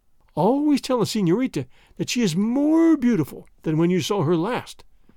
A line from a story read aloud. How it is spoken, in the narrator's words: groaned Don Carlos